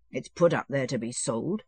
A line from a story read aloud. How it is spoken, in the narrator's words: he answered, scowling gloomily